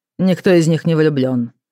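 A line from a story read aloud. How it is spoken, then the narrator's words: Dry, curt. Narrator (Russian): сказал он сухо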